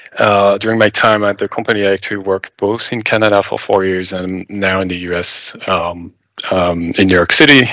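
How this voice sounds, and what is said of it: French accent. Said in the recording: “as you may tell by my accent, I'm originally French from Paris”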